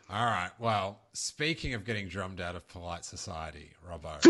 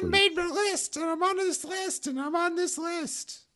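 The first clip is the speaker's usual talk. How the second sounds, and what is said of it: Poor imitation of another person's voice. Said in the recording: “worst Woody Allen impression”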